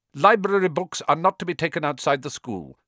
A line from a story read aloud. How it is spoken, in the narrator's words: said Snape